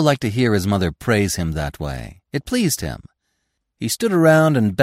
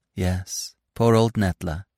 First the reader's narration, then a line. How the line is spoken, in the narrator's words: said Marina softly